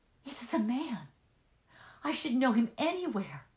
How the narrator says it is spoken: she cried in a voice that sounded in her ears very upset

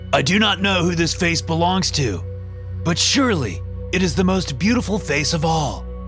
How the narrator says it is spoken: they must loudly announce

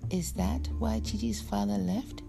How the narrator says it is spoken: Orlu laughed bitterly

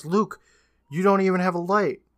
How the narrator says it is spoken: Hannah yells

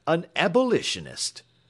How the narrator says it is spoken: cried the captain angrily

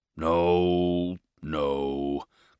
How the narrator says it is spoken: growled Mr

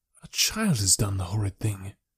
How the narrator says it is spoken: I said in a whisper

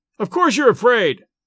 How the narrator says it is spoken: I shouted

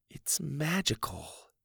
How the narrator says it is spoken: Susie whispered

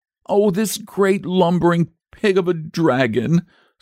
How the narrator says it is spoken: sobbed the boy

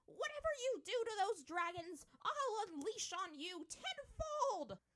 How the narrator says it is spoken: Kana bellowed

